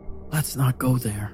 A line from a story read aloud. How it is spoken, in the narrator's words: I said quietly